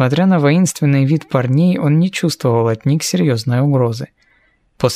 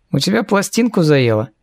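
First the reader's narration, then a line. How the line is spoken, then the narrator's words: Snide question. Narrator (Russian): Ехидно поинтересовался Эриас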